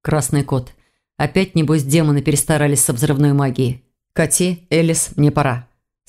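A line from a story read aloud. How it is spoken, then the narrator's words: Plain. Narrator (Russian): сказал он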